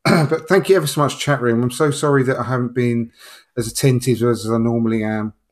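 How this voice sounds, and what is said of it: Strained, poor-sounding voice. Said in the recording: “my voice has been terrible this evening”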